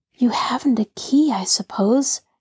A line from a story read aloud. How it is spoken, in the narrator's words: Nancy whispered